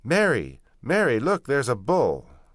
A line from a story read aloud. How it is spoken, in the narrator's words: she shouted